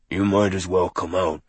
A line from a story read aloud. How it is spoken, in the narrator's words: Charles growled